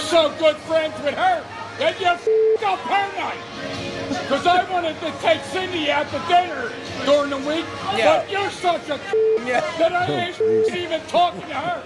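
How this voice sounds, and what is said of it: Strong American regional accent, Philadelphia-like. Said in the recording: “So much going on with that accent. I thought I heard Baltimore. I thought I heard, like, Detroit somewhere in Michigan. Then I thought I heard Pittsburgh. ... I'm putting all my money that that's somewhere in Philadelphia”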